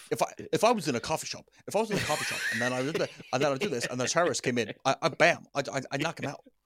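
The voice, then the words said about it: Odd cadence, thick-tongued imitated voice. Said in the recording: “He's got such a weird like cadence uh, to his speech ... he's got absolute like a... a... fat tongue. He's got such a fat tongue.”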